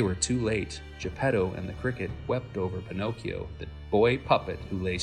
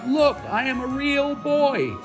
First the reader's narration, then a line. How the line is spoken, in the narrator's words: cried out